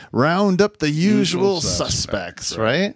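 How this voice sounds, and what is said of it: Imitates a film character's accent. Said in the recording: “Authentic Casablanca accent there.”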